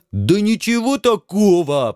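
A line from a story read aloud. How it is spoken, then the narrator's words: Almost joyful yell. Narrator (Russian): почти радостно заорал бульдозер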